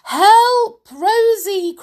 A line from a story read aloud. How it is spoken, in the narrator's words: cried her mother